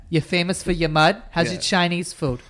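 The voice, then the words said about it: Heavy put-on Brooklyn accent. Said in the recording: “a Brooklyn or Staten Island accent ... Those are heavier ... Marissa Tomei and My Cousin Vinny. That yes, accent.”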